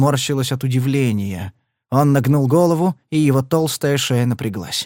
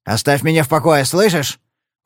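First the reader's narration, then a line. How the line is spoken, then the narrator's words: Menacing bark. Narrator (Russian): угрожающе рявкнул Падлер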